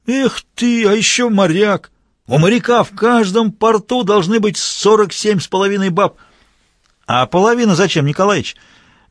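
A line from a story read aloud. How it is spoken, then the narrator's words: Loud old man asking. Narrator (Russian): Громко поинтересовался седой партийный журналист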